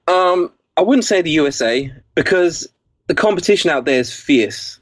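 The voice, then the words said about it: English accent. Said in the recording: “my English accent ... when you have an English accent”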